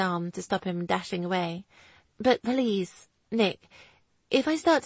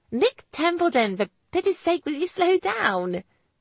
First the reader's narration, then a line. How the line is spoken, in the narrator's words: Lizzie shouted at him